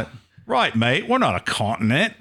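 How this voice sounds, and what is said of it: Put-on Australian accent. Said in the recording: “my Aussie accent ... an Aussie accent”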